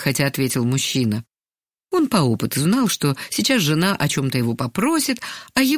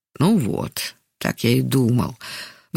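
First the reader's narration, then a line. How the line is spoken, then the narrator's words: Sighing mutter to himself. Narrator (Russian): вздохнув, пробормотал про себя Яков Иванович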